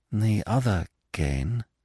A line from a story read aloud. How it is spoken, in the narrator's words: she said slowly